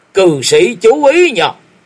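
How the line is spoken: Sudden loud roar. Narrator (Vietnamese): Đột nhiên Thiếu Lâm chưởng môn gầm to

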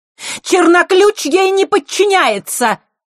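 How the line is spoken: Shrill cry. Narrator (Russian): пронзительно выкрикнула Елена

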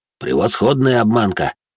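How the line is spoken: Snorting. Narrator (Russian): хмыкнул Борка

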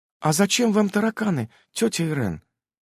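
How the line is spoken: Innocent voice. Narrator (Russian): невинным голосом поинтересовалась Эвелина

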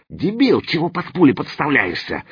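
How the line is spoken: Angry hiss. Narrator (Russian): зашипел Заточка

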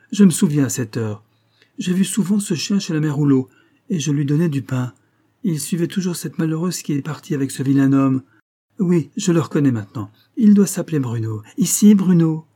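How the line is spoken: Lively exclamation. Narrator (French): s'écria-t-elle vivement

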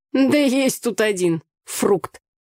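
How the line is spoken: Scornful snort. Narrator (Russian): фыркнула Таня

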